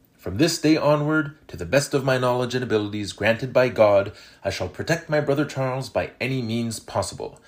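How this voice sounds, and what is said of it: French-Canadian accent. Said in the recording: “I will not apologize for my French-Canadian accent”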